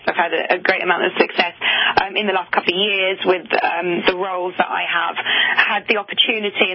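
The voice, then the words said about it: London English accent. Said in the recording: “you have this great London accent, since you're from jolly old England”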